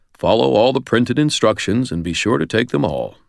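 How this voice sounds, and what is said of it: Formal television announcer voice. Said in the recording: “in my best surgeon general slash television announcer voice”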